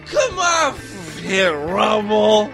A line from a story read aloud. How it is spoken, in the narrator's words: she slurred